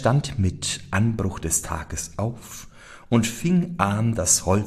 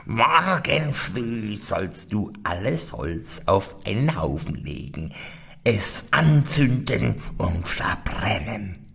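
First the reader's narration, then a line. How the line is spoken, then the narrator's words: Scornful, mocking laughter. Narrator (German): lachte höhnisch und sprach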